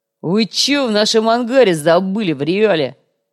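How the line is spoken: Angry snapping. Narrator (Russian): Вновь взъелся коряга

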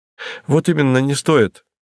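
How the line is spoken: Cheerful tone. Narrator (Russian): веселым тоном подхватил репортер

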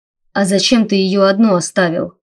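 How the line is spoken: Growled. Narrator (Russian): прорычал Райнер

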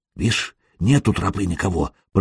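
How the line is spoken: Whisper. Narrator (Russian): прошептал Тороп

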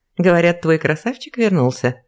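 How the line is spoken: Giggling. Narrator (Russian): хихикнула Ксения

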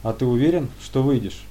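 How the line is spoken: Calm question. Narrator (Russian): спокойно спросил первый

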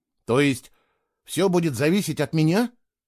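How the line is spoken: Uncertain question. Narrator (Russian): неуверенно спросил Фло

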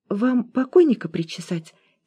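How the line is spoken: Quiet inquiry. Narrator (Russian): тихо осведомилась Зина

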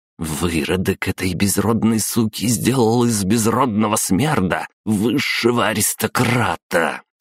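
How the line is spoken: Hissed through teeth. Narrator (Russian): сквозь зубы процедила Елена

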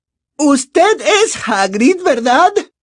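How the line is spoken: Slow, very loud speech. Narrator (Spanish): dijo despacio y en voz muy alta, como si hablara con un sordo

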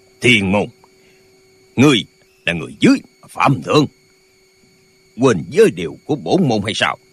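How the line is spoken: Two old men shouting. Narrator (Vietnamese): Hai lão già cùng quát lên

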